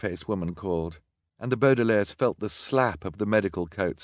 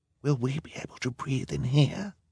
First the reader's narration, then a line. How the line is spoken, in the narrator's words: Violet asked as quietly as she could